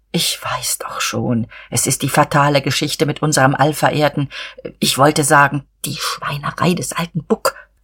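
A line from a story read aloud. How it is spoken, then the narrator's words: Confidential whisper. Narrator (German): flüsterte er vertraulich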